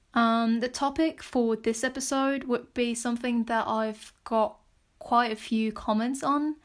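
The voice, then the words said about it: Strong foreign accent in English. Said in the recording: “why is my accent so strong?”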